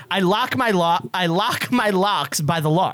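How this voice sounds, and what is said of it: Put-on Boston accent. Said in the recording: “I'm doing it with a Boston accent.”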